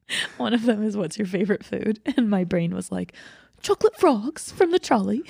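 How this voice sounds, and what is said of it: Usual voice. Nothing is said of it.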